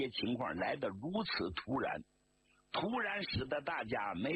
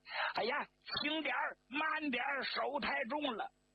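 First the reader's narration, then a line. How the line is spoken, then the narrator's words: Shrieking like a stuck pig. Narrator (Chinese): 张国焘像杀猪似的就叫起来了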